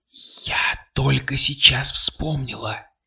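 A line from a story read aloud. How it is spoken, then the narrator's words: Whisper. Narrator (Russian): так же шепотом ответила Кристина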